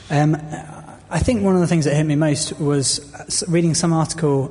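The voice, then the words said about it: Voice strained by sore throat. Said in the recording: “I've got a sore throat.”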